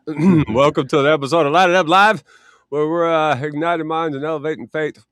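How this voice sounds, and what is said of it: Voice fading, partly lost. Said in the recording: “I'm losing my voice.”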